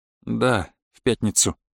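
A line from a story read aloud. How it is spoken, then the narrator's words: Sighing. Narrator (Russian): вздохнул Денис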